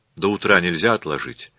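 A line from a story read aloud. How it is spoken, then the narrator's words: Plain. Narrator (Russian): спросила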